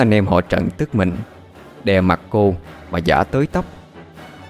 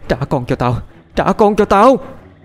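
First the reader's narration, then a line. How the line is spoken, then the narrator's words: Screaming while struggling. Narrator (Vietnamese): Diễm liên tục vẫy vùng mà gào thét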